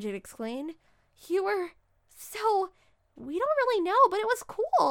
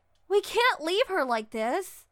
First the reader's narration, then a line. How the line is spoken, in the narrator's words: Abby shouted